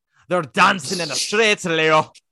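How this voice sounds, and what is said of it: Attempted Southern accent drifting Scottish-Irish. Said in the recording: “I can't do Carolee's southern accent, because every time I do it, it just goes into like Irish Scottish ... It just becomes Scottish-Irish.”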